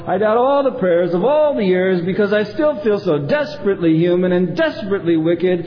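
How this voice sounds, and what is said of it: Shouting, angry voice. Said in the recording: “I'm shouting, and this is a shout prayer”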